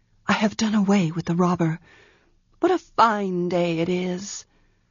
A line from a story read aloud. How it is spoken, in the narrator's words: said in a low voice